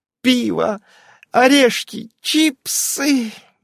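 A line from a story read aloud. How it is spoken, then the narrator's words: Dreamy moan. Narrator (Russian): мечтательно простонала Ирен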